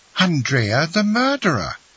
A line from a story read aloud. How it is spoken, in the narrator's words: cried one of the ladies